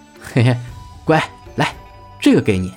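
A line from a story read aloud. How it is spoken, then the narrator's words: Laughing. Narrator (Chinese): 朱熹笑着说道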